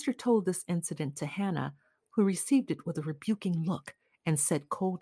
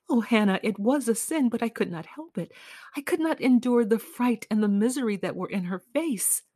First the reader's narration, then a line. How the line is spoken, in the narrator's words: She choked down a sob and said